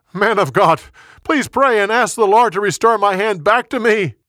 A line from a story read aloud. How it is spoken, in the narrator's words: He yelled again